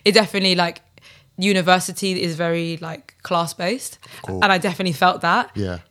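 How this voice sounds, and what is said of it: South London accent. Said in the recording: “being from the ends... I kind of just struggled with my accent... being from South London”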